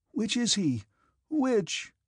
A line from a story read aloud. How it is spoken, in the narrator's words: asked Petya in a tearful voice